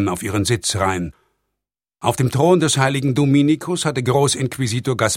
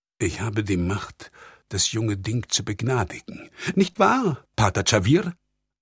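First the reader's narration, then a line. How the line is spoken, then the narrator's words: Murmuring. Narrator (German): murmelte Generalvikar Garcia Loyasa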